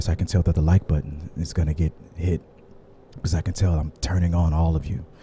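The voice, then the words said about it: Deep, breathy, soothing put-on voice. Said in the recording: “take a deep breath, and that sound that you naturally make when you give a hard exhale like that, that is your true voice. So right now I'm speaking in my true voice ... as I soothe you with this true voice of mine”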